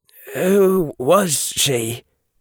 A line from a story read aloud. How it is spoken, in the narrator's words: Harry said, his voice sounding strange in his own ears